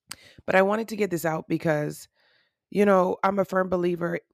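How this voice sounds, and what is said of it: Congested, rough morning voice. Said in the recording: “It is early on Friday when I'm recording this. So that's why my voice sounds like this for all my morning post-nasal drip girls or guys.”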